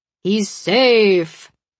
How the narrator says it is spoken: Razor bellows

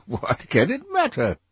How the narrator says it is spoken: cried Dorian Gray, laughing

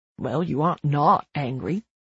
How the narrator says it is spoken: he mutters from behind me

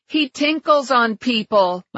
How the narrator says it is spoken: my mother shouted from the kitchen

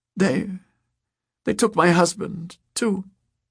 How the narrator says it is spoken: Pernilla Holman sobbed

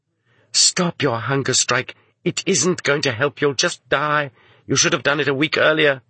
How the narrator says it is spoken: a kindly, compassionate woman jailer named Marussia whispered to him

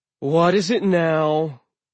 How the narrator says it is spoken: he sighed

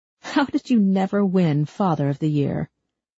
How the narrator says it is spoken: Rusty chuckled along with her

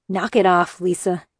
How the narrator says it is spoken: he grumbled

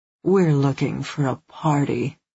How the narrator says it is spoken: she practically purred

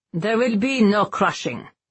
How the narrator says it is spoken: Henrik grumbled with a disgusted glare

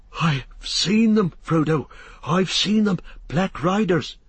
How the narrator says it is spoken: he gasped

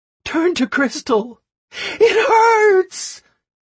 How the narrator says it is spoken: The girl screamed so loud

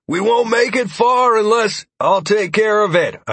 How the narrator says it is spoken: I shouted back to the man

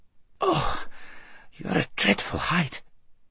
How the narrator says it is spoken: gasped Shasta after his first and unsuccessful attempt

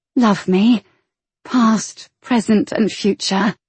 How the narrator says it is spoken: whisper in his ear

